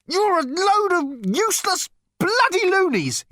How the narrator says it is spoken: he shouted

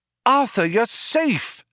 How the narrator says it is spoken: a voice cried

